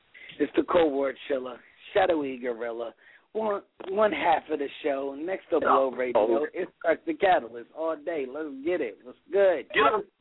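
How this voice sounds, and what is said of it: Raspy voice. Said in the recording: “I love your voice ... I love your accent ... He ain't got no accent ... It's raspy.”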